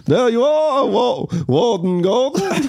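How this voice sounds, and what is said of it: Stereotypical Swedish accent. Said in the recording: “speak with a very stereotypical Swedish accent. ... that's what Swedish people sound like. ... Very stereotypical.”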